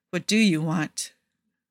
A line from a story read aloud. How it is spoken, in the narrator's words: Booker asks carefully